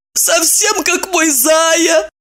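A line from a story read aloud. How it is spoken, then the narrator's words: Moaned. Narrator (Russian): простонала она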